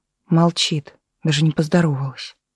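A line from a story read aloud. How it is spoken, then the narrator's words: Whispering. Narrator (Russian): прошептала в ответ Таисия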